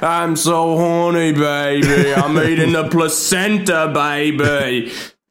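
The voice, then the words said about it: Bad imitation of a movie character. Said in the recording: “worst Austin Powers impression anyone will ever do”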